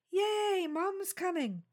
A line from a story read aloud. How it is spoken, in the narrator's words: Paul shouted